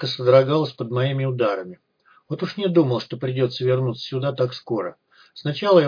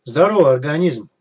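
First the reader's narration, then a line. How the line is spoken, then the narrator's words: Cheerful greeting. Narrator (Russian): бодро поприветствовал его я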